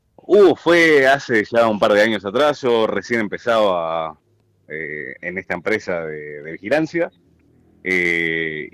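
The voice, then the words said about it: Rich radio announcer voice. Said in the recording (Spanish): “pero qué voz de locutor que tiene”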